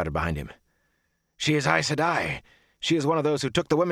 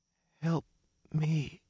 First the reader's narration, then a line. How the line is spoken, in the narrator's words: she said faintly